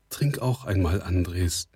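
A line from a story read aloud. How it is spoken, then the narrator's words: Plain. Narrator (German): sagte sie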